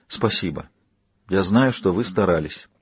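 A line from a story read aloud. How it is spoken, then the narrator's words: Quiet remark. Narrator (Russian): Кейт негромко проронила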